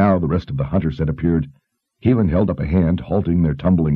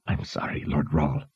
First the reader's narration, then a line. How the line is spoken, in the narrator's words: Kara whispered